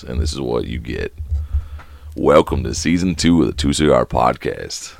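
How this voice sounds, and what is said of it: Hoarse, lost voice. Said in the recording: “my voice is, I think, perfect right now. I lost my voice”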